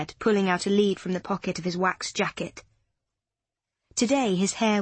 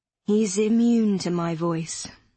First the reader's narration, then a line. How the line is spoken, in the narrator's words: he sighed